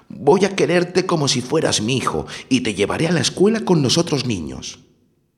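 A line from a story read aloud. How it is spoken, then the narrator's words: Joyful exclamation. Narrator (Spanish): se llevó una gran alegría y exclamó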